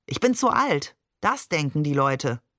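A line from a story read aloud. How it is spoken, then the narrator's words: Plain. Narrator (German): sagte er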